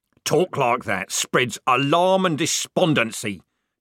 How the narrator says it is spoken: shouted Corporal Strappy

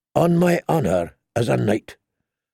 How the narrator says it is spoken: the Lightning Lord said solemnly

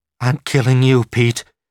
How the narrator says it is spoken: Patricia McLean gasped

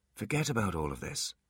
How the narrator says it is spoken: said Artemis softly

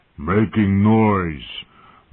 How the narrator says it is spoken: growled with blood in his eyes

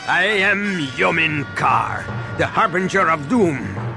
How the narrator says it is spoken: the warrior said with a sinister laugh

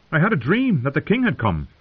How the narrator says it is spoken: Owen said happily

